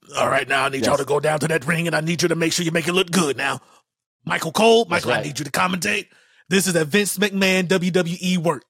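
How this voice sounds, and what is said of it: Imitates another person's voice. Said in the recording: “I'm going to try to do my best impression.”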